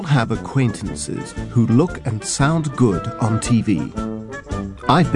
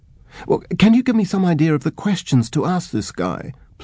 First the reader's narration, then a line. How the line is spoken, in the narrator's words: pleaded the reporter